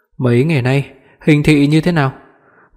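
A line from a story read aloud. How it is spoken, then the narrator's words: Slightly hoarse, just awakened. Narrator (Vietnamese): Mới vừa tỉnh lại nên giọng nói của anh vẫn còn hơi khàn khàn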